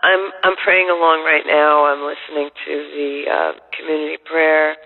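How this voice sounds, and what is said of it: Voice sounds a bit rough. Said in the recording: “I've been home with a flu ... my voice sounds a little bad still”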